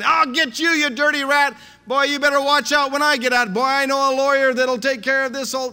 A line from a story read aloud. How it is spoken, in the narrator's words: threatening and yelling